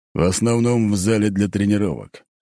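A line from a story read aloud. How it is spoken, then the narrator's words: Snort. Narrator (Russian): хмыкнул тот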